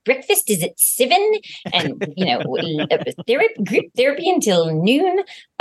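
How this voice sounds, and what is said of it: Attempted New Zealand accent, Melanie Lynskey. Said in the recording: “Melanie Linsky being so bossy when she's like ... I can't do, as you can see, I can't do. ... It's perfect. ... New Zealand accent.”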